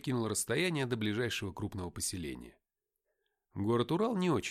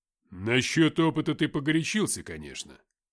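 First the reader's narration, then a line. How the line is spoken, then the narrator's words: Grumbling. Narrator (Russian): пробурчал Филиппыч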